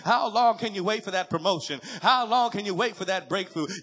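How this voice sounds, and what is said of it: Shouting, fervent preaching. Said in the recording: “I'm shouting for you.”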